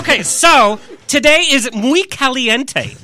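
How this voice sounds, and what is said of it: Put-on accent. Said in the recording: “Do you like my accent?”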